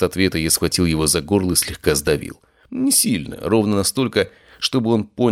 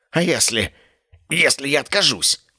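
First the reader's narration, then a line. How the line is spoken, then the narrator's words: Hoarse wheeze. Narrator (Russian): прохрипел он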